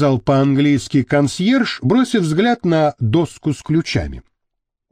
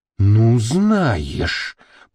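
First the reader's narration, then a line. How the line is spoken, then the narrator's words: Hissing. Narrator (Russian): прошипела Маша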